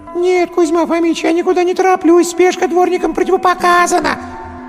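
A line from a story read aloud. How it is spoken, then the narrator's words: Anguished howl. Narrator (Russian): взвыл в отчаянии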